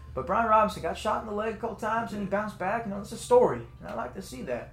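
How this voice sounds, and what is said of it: Put-on Southern US accent. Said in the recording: “I do a Southern accent off and on when I talk about ball”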